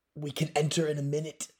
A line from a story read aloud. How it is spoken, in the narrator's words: he gasped